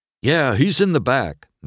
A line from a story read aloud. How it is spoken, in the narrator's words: Mac replied